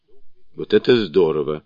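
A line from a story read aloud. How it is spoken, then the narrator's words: Bursting laughter. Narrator (Russian): расхохотался Джубадзе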